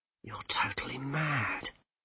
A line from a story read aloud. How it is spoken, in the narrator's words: said Rincewind hoarsely